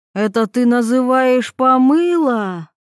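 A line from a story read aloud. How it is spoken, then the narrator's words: Yelling. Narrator (Russian): заорала мать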